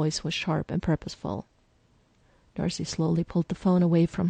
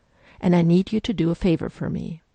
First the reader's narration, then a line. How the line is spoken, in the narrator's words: the other woman said firmly